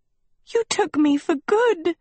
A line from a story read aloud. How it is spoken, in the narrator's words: Sophie sobbed